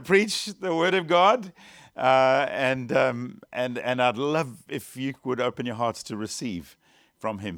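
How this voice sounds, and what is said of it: British accent. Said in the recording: “I hope my accent's all right for you. I'm trying very hard to speak the Queen's English.”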